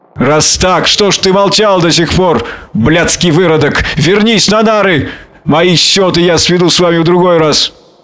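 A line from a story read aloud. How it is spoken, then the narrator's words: Shouted. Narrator (Russian): крикнул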